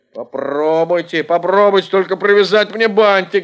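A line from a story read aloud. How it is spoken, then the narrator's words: Sudden shout. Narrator (Russian): закричал вдруг Эд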